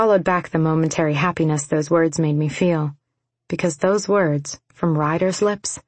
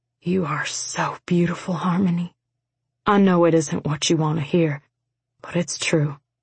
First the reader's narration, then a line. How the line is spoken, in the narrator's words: with tears tumbling down his cheeks, rasped